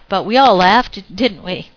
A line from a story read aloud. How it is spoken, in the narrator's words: I laughed